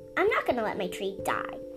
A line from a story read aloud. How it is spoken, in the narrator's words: she said firmly